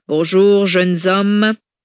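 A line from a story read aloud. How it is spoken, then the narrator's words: Loud proclamation. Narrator (French): clama Jacqueline d'une voix forte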